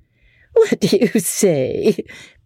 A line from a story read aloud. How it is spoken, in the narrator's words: Becky said, laughing